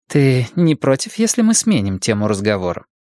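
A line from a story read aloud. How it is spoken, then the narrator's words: Dry. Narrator (Russian): сухо спросила Ортега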